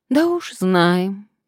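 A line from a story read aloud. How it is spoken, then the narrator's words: Sigh. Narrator (Russian): вздохнула Надежда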